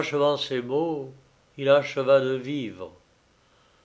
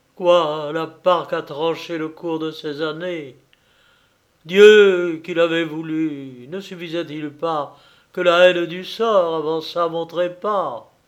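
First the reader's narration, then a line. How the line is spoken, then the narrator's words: Dying man's cry. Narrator (French): Il s'écrie, en voyant finir sa destinée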